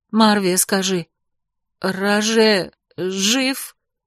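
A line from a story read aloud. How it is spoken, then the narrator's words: Trembling voice. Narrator (Russian): Дрожащим голосом спросила я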